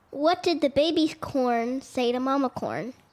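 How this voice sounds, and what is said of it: Playful, funny joke-telling voice. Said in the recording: “in a fun voice”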